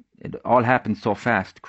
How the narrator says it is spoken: Creighton stuttered

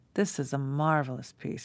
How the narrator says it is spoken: he said, sighing

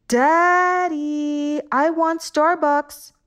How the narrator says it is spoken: When hungry, they yelled

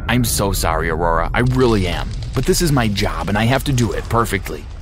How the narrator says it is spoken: while muttering

